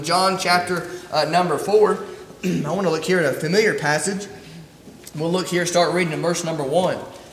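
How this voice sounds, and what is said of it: Strained, hoarse voice. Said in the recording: “you have to excuse my voice ... I got some allergies ... my voice was trying to go out on me ... my voice isn't quite what it needs to be with all this allergy stuff”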